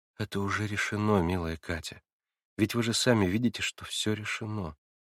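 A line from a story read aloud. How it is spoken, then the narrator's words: Quiet. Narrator (Russian): отвечала тихо Наташа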